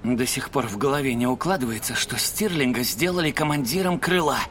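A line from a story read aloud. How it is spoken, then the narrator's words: Mutter. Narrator (Russian): пробормотал Сойер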